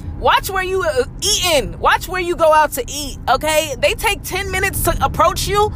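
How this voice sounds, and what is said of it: Raised, loud ranting voice. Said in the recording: “raising my voice”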